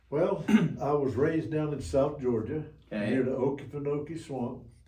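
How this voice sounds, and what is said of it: Slight regional accent. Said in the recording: “Hear the accent there a little bit.”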